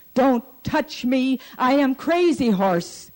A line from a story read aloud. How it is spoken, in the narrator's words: he cried